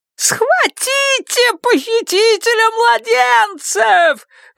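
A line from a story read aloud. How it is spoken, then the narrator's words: Shrieking woman. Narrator (Russian): визжала жена Джерарда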